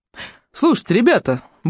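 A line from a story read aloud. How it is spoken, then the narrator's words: Brisk cheerful tone. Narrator (Russian): бодрым тоном проговорил Хэнкок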